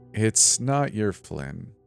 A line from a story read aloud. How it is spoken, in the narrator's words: said